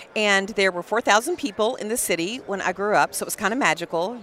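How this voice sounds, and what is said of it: Texas accent. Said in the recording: “no surprise with my Texas accent ... I'm a Texas girl, born and raised ... You have an accent”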